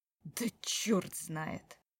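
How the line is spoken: Sudden, through gritted teeth. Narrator (Russian): сказал вдруг сквозь зубы

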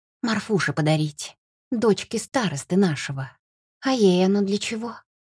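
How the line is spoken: Sighing. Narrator (Russian): Парень вздохнул снова

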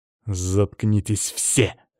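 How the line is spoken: Growling. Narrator (Russian): снова пришлось мне рычать

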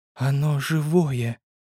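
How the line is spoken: Quiet whisper. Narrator (Russian): тихо прошептала снайперша

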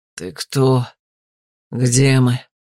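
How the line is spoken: Hoarse but confident. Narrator (Russian): Голос незнакомца прозвучал хрипло, но уверенно

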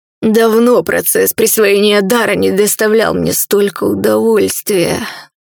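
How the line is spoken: Breathy demon voice. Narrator (Russian): выдохнул демон

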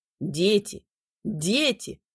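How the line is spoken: Solemn announcement. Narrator (Russian): торжественно объявил рыжебородый

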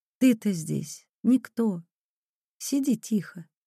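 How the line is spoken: Quiet bedtime speech. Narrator (Russian): негромко говорила она перед сном

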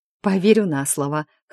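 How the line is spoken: Laughing reply. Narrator (Russian): хохотнула в ответ

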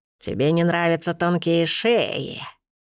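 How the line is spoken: Old woman, laughing mutter. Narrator (Russian): со смехом пробормотала старуха

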